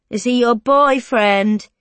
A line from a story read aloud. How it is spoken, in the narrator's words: he taunts